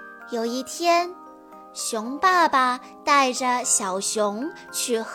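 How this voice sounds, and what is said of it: Usual voice. Nothing is said of it.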